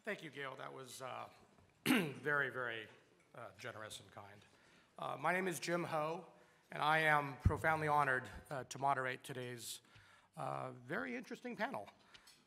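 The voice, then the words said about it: Weak, strained voice. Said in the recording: “my voice is a little weaker than it's normal for me”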